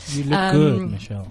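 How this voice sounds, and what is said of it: Seductive bedroom voice. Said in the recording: “That's my bedroom voice”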